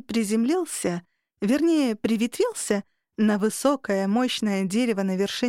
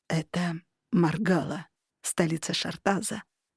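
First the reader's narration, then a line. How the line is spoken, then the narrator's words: Proud whisper in ear. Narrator (Russian): гордо шепнул мне на ухо Архан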